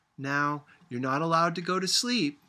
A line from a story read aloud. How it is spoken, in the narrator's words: Sophia said